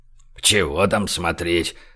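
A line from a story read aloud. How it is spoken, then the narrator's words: Grumbled. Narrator (Russian): проворчал Большой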